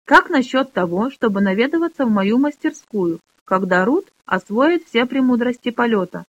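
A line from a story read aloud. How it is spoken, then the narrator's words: Plain. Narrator (Russian): спросил Робинтон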